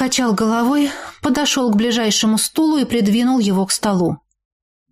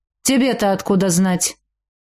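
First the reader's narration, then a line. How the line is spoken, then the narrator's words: Sharp question. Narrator (Russian): резко спросил брат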